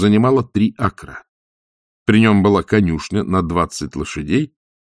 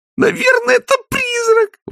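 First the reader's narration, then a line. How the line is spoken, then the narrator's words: Exclamation. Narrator (Russian): воскликнула Кристина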